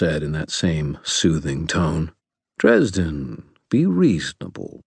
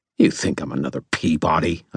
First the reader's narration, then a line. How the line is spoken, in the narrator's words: I snarled